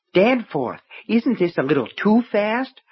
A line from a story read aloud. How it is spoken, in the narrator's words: Myrtle asked breathlessly